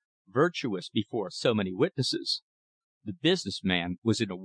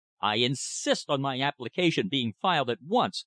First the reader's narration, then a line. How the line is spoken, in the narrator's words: he cried